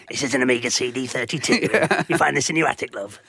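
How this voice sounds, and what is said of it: Imitates another person's voice. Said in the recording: “the equivalent of David Dickinson ... Good impression.”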